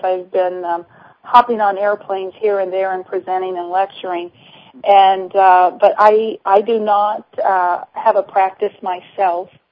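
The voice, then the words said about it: Slightly hoarse, laryngitic voice. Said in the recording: “I have a little bit of laryngitis.”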